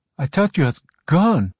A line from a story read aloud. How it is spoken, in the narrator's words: said shakily